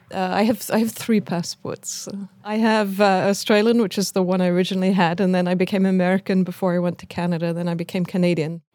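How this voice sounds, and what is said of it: Foreign-accented English. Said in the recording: “And she, too, has an accent.”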